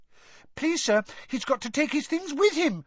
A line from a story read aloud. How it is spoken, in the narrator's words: squeaked Colin